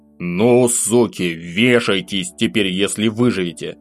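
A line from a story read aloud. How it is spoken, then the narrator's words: Vicious hiss. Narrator (Russian): Злобно прошипел я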